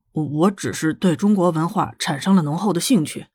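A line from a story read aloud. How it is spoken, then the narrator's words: Embarrassed mumble. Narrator (Chinese): 他本来就不厚的脸皮瞬间烧得通红，咕哝着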